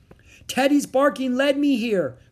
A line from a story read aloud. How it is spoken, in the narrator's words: cried Annie